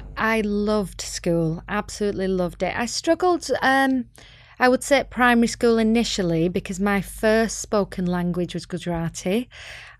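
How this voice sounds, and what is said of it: Northern English Bolton accent. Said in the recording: “Bolton, which is north of Manchester, as you can tell by my accent.”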